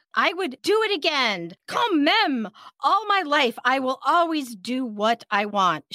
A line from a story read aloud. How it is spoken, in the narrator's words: in a lot of pain and screaming, she's still saying